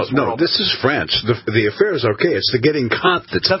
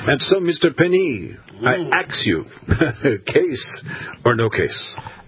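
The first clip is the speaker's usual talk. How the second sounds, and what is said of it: Put-on French accent. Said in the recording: “because it's from France. And because of the accent... that accent was so real to me”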